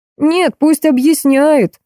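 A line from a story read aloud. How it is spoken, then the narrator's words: Crowd yelling. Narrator (Russian): заорали из толпы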